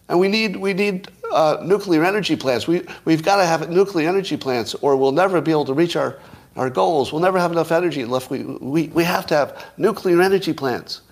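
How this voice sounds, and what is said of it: Pleading up-talk with rising endings. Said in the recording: “An up-talk would be ... Now that's a pleading voice. Doesn't sound powerful.”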